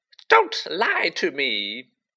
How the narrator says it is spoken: Myrtle gasped, tears now flooding down her face

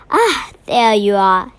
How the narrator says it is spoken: he gasped

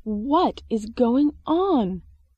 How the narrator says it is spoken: shouted the manager

